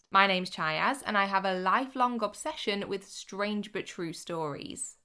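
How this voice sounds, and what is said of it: Odd-sounding voice, like a cold. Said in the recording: “my voice sounds a little odd. I'm currently trying to fend off some kind of cold or virus or something.”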